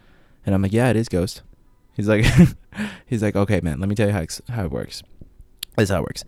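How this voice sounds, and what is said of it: Usual voice. Nothing is said of it.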